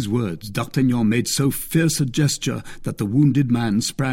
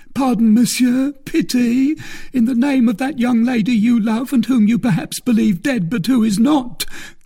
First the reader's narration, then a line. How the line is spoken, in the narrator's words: cried the bandit, for he began to lose his strength with his blood